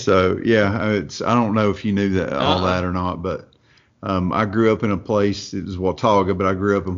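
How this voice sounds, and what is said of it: Northeast Tennessee Appalachian accent. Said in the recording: “you can tell by my dialect, I'm not from New York or anywhere like that. I'm from a little place up in Northeast Tennessee ... when I say hillbilly, it's hillbilly”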